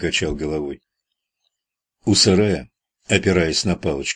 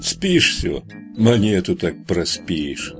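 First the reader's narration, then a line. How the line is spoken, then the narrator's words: Good-natured hoarse sparrow. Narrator (Russian): добродушно прохрипел воробей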